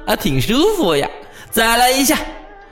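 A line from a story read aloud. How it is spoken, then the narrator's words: Smiling, pleased. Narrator (Chinese): 四刃皮却笑眯眯地说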